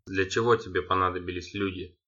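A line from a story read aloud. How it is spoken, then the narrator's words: Plain. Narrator (Russian): спросил Андалит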